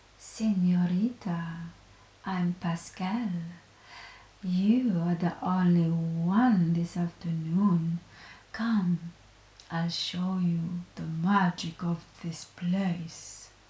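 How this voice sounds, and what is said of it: Sexy Spanish accent. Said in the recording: “in his sexy Spanish accent said”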